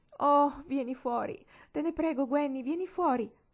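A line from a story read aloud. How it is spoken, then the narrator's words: Pleading. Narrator (Italian): supplicava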